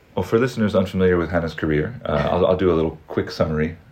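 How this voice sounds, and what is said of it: Mid-Atlantic accent. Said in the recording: “I also have an accent that I often describe as drowning somewhere in the middle of the Atlantic.”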